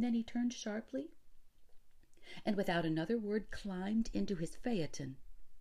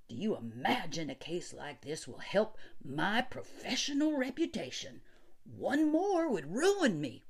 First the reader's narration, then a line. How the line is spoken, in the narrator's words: He snapped that last word in, well, almost one syllable